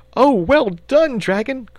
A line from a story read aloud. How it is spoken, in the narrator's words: cried the boy, excitedly